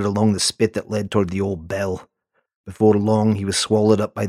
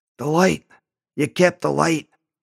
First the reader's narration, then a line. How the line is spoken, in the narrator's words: His voice was a rasp